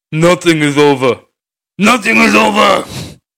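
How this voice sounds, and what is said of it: Rambo impression. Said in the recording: “can I do a Rambo voice? ... No, it's not great.”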